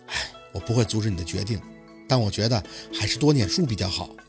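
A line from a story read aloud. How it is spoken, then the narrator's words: Sighing. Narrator (Chinese): 夏文东……叹气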